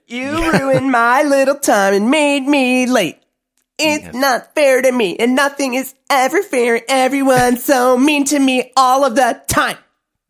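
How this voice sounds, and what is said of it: Whiny complaining Karen voice. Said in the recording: “great Karen impression”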